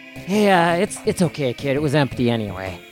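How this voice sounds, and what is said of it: A put-on character voice. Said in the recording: “let me get my character voice in ... I forget my character voice.”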